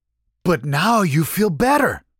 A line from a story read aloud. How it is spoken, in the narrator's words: Maurice continued, barely missing a beat